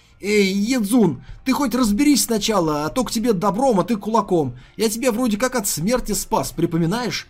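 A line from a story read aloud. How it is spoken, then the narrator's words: Yelled. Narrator (Russian): завопил Ли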